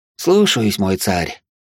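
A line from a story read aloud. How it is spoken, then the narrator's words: Heavy sigh. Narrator (Russian): тяжело вздохнул он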